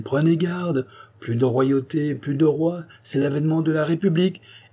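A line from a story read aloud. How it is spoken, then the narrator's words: Group exclaiming. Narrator (French): s'écrièrent-ils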